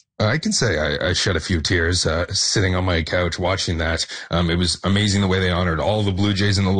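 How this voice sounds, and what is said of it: Usual voice. Nothing is said of it.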